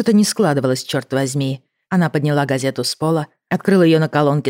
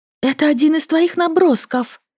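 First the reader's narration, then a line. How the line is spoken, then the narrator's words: Breathless. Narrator (Russian): выдохнула Лили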